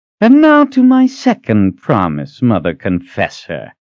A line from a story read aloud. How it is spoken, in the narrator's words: Ranson said with a sneer